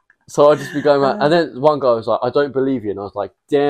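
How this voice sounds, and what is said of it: Usual voice. Nothing is said of it.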